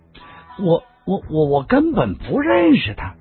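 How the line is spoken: Wry bitter laugh. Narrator (Chinese): 段誉苦笑了

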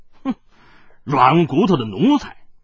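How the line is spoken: Cold laugh, cursing. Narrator (Chinese): 海大少呵呵的冷笑数声，口中犹自骂道

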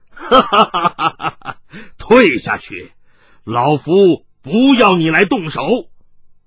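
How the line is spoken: Wild laughter. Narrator (Chinese): 冷泉福仰天狂笑起来

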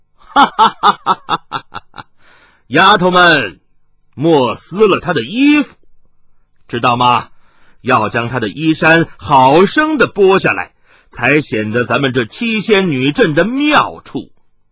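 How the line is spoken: Loud laughter. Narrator (Chinese): 麻衣客大笑道

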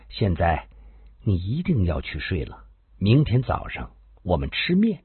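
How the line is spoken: Soft. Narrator (Chinese): 双双轻声地说道

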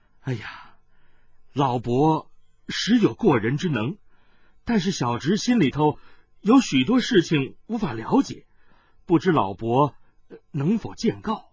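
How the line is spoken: Sighing. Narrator (Chinese): 铁中堂叹道

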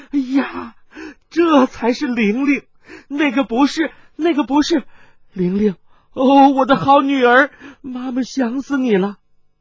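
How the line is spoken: Startled, then loud laughter. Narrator (Chinese): 先是一愣，继而放声笑道

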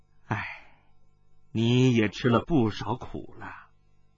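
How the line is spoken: Gentle, soft sigh. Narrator (Chinese): 那雨生更是和悦，轻叹道

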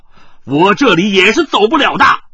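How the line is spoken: Stern harsh voice. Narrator (Chinese): 有人厉声说道

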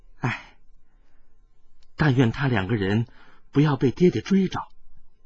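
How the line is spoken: Sudden soft sigh. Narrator (Chinese): 冷清平忽然轻轻的叹息

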